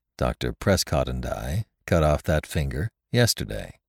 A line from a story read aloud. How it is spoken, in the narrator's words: replied the thinking machine calmly